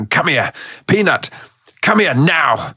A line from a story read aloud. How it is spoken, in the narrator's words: I got angry, and I was shouting